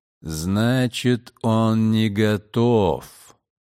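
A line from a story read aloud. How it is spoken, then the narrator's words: Drawn-out drawl. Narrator (Russian): протянул Дакр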